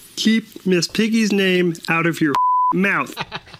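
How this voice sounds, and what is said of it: Kermit the Frog voice impression. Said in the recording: “here's what it would sound like if Kermit the Frog ... Kermit the Frog impersonations”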